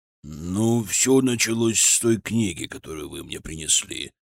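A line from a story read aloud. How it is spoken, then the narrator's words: Grumbling. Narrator (Russian): проворчал господин Иевлин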